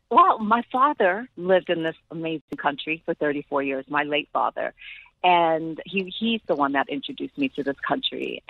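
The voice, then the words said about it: Speaks with a noticeable accent. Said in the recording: “we can already hear your accent.”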